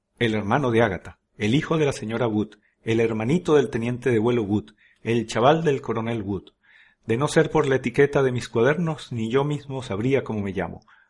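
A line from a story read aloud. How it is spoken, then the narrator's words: Boy grumbling. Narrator (Spanish): rezongó el chico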